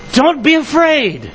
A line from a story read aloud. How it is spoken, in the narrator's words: The young man cried